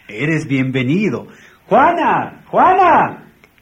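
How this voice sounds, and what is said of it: Shouting a name loudly. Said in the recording (Spanish): “¿Por qué gritas?”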